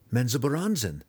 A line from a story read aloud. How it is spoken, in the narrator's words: the cleric cried